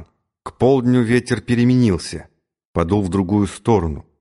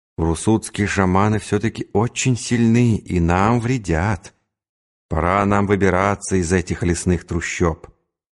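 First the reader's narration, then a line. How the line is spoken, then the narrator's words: Muttering. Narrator (Russian): Субудай-богатур бормотал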